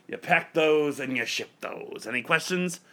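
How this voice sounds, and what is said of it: Poor impression of gruff New York boss. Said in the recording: “That's a terrible impression. ... He's a curmudgeon New York boss.”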